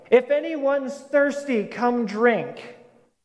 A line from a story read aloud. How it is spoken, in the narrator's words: this Jesus standing and shouting